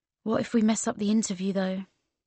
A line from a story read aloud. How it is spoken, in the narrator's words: I said, quietly